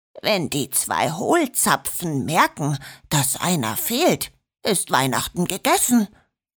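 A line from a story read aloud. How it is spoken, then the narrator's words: Murmur. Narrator (German): murmelte er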